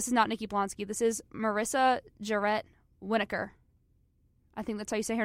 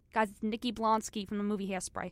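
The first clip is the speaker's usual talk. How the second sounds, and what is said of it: Imitates another person's voice. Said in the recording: “that's my impression right there”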